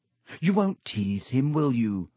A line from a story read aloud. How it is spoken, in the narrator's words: She added anxiously